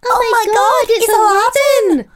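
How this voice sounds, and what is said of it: Toddler's Glaswegian Scottish accent. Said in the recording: “read in the accent of a two-year-old from Glasgow... but in a two-year-old's accent”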